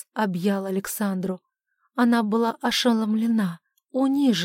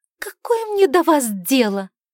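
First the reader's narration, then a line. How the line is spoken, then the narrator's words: Sharp, curt. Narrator (Russian): резко бросила Шарлотта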